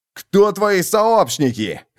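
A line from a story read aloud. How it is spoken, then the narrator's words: Barked. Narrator (Russian): рявкнул Боссендорфер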